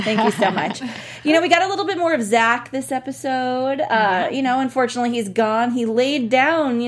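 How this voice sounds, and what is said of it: Usual voice. Nothing is said of it.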